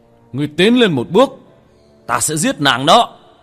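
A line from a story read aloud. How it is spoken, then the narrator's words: Fierce shout. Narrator (Vietnamese): Thần tôn một khuôn mặt dữ tợn hét lên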